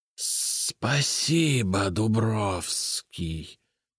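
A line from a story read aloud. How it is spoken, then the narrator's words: Hissed. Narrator (Russian): прошипел Полоз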